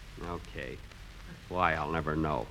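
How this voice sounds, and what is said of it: Mumbled, indistinct speech. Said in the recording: “Stop mumbling.”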